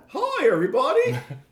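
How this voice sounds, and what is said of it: Mickey Mouse cartoon character voice. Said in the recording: “Is that your Mickey Mouse impression? ... He was channeling Kingdom Hearts.”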